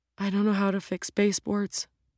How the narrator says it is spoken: Ro whispered

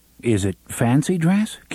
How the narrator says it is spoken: Cuthbert asked uneasily

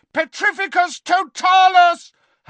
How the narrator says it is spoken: Harry bellowed again

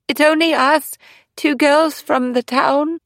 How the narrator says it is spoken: Eleanor marveled at her sister's aplomb as she stepped out onto the path and called out

